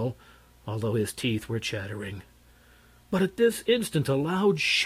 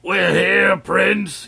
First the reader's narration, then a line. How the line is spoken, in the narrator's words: yelled Wool Take'em